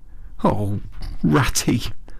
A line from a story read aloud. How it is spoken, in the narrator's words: he cried dismally